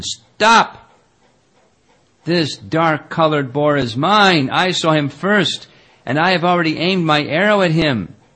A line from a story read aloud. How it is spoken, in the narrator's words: shouted to Arjuna